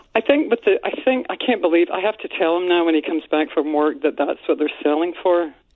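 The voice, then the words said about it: Scottish accent. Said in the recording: “is this a Lake in the Hills accent? Because it's beautiful. ... It's a Scottish accent.”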